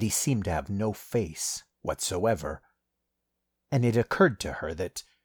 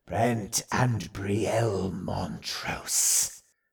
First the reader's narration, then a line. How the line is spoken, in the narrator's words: rasped